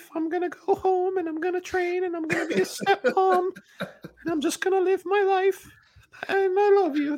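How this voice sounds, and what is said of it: Cartoonish old grandmother voice. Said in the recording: “I imagined a Pixar mouse giving that speech ... nailed that impression ... You sound like every cartoon nursery tale grandmother.”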